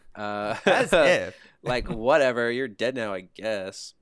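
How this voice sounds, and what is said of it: Put-on Valley Girl accent. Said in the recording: “Could she have used the Valley Girl accent”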